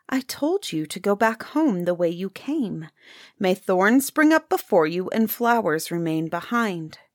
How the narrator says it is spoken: the princess approached it and said in a more gentle voice

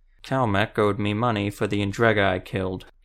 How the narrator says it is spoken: he said simply, though his words were slurred and appeared painful to form

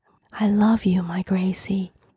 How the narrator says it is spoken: Harriet murmured as she tenderly held a hysterical daughter

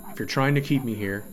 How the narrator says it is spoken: Castro said

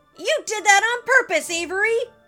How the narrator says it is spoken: Antony shouted

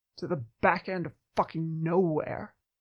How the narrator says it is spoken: Jack muttered

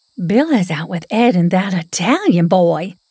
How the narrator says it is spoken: Molly stated breathlessly as she finally summited the four porch steps

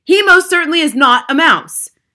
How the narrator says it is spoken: shouted Mr

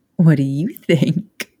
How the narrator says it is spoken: She asked, still giggling

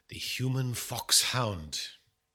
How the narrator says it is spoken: murmured Poirot

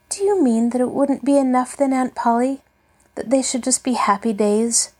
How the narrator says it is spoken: She asked wistfully

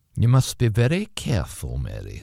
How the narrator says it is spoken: said the voice

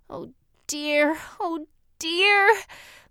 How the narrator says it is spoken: moaned the girl

